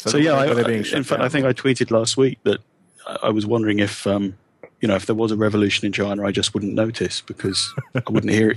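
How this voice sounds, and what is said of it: English accent. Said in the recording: “So being English... I'm guessing this based on your accent.”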